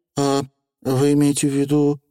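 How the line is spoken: Timid babble. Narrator (Russian): пролепетала Тиффани

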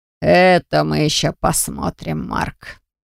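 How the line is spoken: Scoffing snort. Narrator (Russian): хмыкнул Доранг

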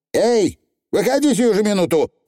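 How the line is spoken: Shouting into darkness. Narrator (Russian): крикнула матушка во тьму

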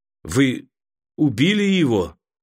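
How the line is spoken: Strained, forced out. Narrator (Russian): выдавил из себя Мерит

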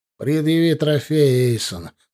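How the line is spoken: Dry command. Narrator (Russian): сухо велел куратор

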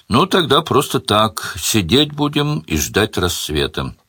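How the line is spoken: Ordinary tone, hostess. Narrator (Russian): самым обычным тоном сказала хозяйка

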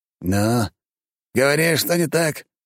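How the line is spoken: Father's growl. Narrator (Russian): рыкнул отец

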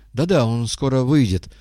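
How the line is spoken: Gentle, kind. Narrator (Russian): ласково сказал Горбовский

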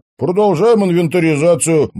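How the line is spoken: Brisk, cheerful report. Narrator (Russian): бодро отрапортовал Теодор

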